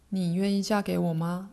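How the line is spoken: Plain question. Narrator (Chinese): 阿纳斯塔，他问

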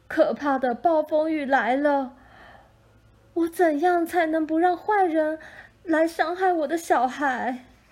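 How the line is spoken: Crying out. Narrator (Chinese): 母亲哭喊着

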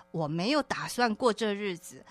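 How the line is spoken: Laughing. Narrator (Chinese): 有时候我先生会笑着跟我说

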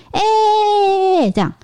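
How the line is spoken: Loud greeting. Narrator (Chinese): 我就大声的打招呼，然后……说

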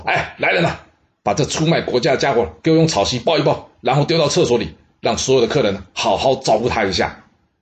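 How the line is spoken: Calling out orders. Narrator (Chinese): 他叫人说

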